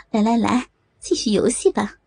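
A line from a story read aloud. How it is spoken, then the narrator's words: Laughing. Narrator (Chinese): 美红 笑道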